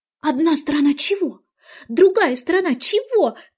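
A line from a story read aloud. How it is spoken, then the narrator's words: Shout. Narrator (Russian): крикнула ей Алиса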